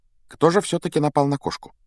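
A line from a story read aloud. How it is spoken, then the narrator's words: Quiet, casual question. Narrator (Russian): Негромко спросила она, как будто продолжила прерванную беседу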